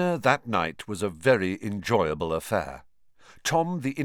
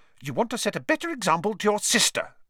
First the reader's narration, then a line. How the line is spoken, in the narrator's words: snapped Mrs